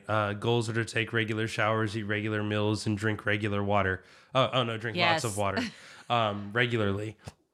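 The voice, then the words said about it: Scratchy, low-energy voice. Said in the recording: “my energy level is a little bit lower. My voice is a little scratchier.”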